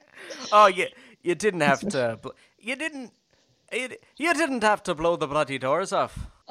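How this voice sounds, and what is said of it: Celebrity impression sounding oddly Irish. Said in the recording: “That's my Michael Caine ... Why is Michael Caine Irish in yours?”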